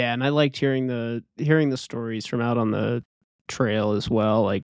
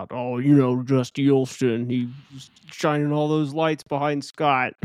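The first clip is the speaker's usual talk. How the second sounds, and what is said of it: Imitates another person's voice. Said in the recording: “my best Karl Meltzer impression.”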